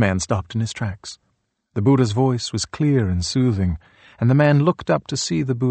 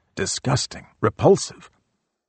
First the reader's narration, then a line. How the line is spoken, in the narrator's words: he mumbled